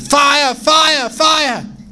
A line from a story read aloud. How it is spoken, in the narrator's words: someone in the back shouted